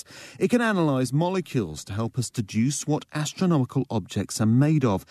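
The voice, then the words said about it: English accent. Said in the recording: “That sounds so much better in an English accent.”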